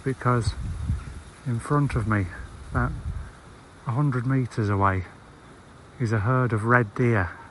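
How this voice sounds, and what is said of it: Lowered, quiet voice. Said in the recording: “the reason that I've lowered my voice”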